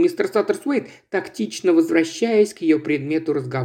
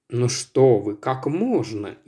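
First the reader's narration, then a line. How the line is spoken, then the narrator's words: Indistinct mumble. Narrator (Russian): невнятно пробормотал мистер Саттерсуэйд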